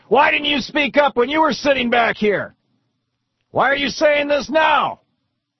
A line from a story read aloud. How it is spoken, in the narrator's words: somebody in the back yells